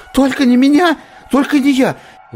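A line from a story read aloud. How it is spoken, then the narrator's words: Shrill squeal. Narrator (Russian): взвизгнул Висконски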